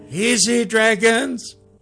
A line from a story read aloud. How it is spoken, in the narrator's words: Gorley pleaded